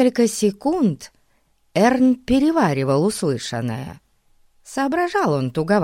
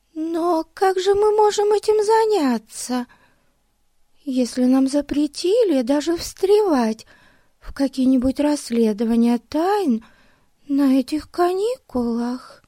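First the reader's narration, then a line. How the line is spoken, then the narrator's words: Thin high voice. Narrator (Russian): Тоненьким голосом сказала Бетси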